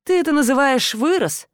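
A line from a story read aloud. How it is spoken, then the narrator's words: Dismayed sigh. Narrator (Russian): сокрушенно выдохнул Недофей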